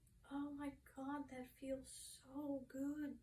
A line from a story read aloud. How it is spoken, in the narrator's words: Tammy moaned